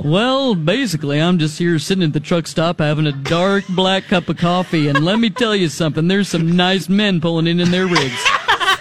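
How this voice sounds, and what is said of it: Comic trucker character voice. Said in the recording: “She created this gay trucker character that, like, was at a truck stop ... can you do the voice? Do you remember the voice?”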